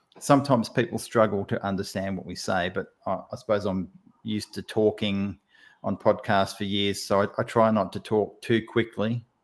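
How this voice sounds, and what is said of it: Australian accent. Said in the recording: “I've always loved Australian accent. ... you'll be picking up the Australian accent”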